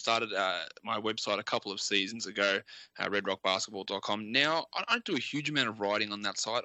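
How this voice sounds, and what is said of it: Australian accent. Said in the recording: “as you can probably tell by my voice, I'm an Australian”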